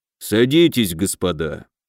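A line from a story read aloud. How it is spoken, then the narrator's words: Grumbling. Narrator (Russian): пробурчал полковник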